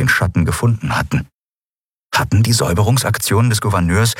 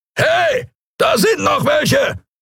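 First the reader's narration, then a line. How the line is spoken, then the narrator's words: Bellowing. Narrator (German): brüllte eine Skria-Stimme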